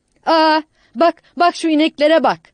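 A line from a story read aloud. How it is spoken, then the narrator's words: Aunt shouting. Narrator (Turkish): diye bağırdı teyze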